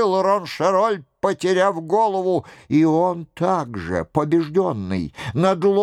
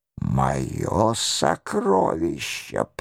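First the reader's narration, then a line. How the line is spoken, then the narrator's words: Murmured. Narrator (Russian): пробормотал Роншероль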